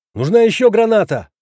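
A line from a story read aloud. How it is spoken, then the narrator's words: Urgent desperate shout. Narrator (Russian): Вновь выкрикнул я, понимая, что если не остановить монстров сейчас, больница будет окончательно потеряна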